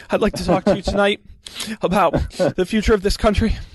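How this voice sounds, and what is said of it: Imitates another person's voice. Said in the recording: “my Marco Rubio impression ... The Rubio.”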